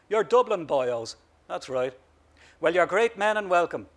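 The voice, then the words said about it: Rural Irish bogger accent. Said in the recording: “he said in a bogger accent”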